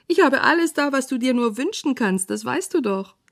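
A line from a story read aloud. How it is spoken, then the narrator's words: Dream-seller calling out. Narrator (German): ruft der Traumwunderverkäufer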